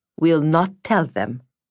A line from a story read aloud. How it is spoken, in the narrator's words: said Vasya firmly